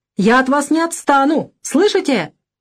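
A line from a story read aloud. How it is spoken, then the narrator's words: Heated shout. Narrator (Russian): крикнул француз запальчиво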